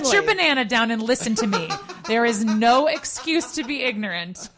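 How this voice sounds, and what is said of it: Stern scolding mom voice. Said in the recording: “That was in my mom voice.”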